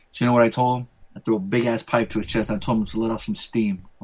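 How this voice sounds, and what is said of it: Put-on Austrian accent. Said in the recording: “The fucking Austrian accent. ... I try to sound like Arnold too.”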